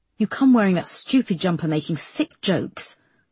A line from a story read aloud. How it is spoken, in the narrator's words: snapped David